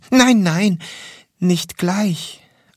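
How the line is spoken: Plain answer. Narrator (German): antwortete der Engel

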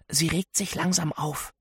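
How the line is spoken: Whispered. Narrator (German): flüstere ich ihr zu

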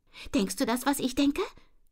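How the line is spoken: Excited question. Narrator (German): fragt Jette aufgeregt

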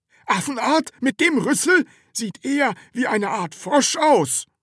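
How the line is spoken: Man calling out, interrupting. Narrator (German): rief ein anderer Mann dazwischen

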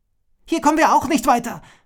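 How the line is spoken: Shout. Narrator (German): schrie Agila

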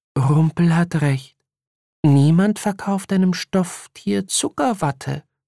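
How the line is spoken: Sighing. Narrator (German): seufzte Melisande

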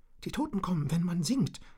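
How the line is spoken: Shaky voice. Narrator (German): erklärte Richard mit zitternder Stimme

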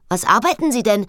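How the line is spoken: Called after someone. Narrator (German): rief ihr Frau Knef hinterher

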